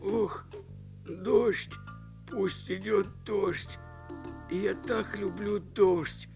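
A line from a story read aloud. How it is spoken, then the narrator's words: Moaned. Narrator (Russian): простонал лефург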